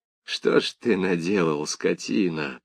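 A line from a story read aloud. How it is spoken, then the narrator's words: Groaning. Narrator (Russian): простонал Сошнин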